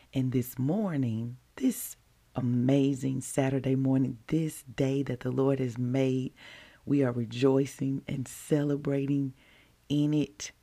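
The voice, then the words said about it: Deep voice. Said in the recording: “This is your deep voice host”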